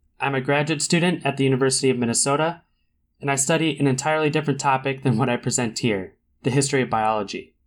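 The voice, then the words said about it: Mild Minnesota accent. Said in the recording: “born and raised in St. Paul, if you couldn't tell by some of the local accent that may show through”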